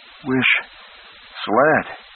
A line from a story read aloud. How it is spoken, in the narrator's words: she panted